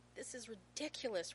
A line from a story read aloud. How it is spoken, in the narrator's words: Rodney sputters